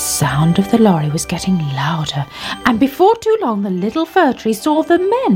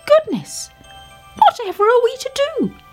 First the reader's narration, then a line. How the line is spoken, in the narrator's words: cried the little fir tree